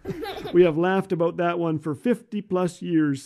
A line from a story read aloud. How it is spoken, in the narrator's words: says Jim